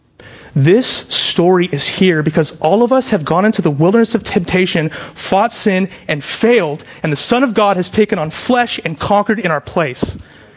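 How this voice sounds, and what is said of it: Raised, excited voice. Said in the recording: “I'm raising my voice. I'm not angry. I'm excited.”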